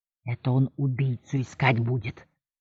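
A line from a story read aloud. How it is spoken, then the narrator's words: Whisper. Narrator (Russian): прошептал мне Твейтс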